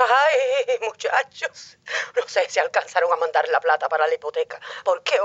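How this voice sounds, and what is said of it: Usual voice. Nothing is said of it.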